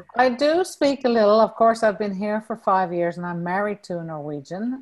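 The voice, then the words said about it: Faded Newfoundland accent with Irish tinge. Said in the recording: “you'll hear the Irish accent coming out with me ... I sound a little different, no doubt. And I've lost a lot of my Newfoundland accent”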